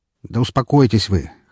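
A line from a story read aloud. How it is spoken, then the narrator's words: Snorting. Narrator (Russian): хмыкнул я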